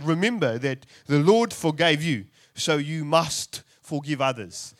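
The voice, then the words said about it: Exaggerated put-on South African accent. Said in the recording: “the Apostle Paul was hanging out with some South Africans at this point ... that was a terrible accent”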